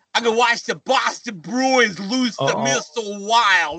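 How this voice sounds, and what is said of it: Imitates another person's voice, attempted Boston accent. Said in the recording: “that's a Zeus impersonation? ... It's spot on. ... That's like a Minnesota guy trying to do a Boston accent.”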